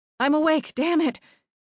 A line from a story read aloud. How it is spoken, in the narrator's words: snapped, gasping for breath